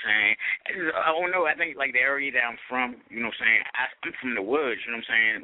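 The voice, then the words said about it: Country Maryland accent. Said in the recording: “you have the accent ... you sound country ... He's different the way he talks”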